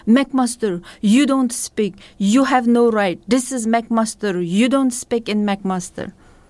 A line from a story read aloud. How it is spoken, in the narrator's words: spoke in broken English and he yelled